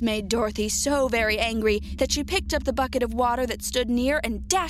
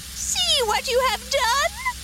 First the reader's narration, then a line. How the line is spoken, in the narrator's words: she screamed